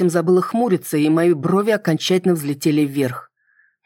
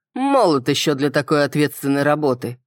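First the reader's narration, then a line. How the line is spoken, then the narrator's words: Skeptical snort. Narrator (Russian): хмыкнул Райнер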